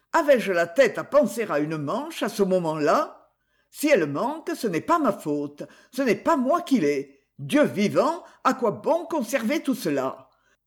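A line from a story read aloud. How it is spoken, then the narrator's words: Grumbling. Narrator (French): en grommelant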